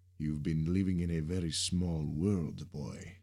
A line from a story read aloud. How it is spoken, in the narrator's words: said with a thick accent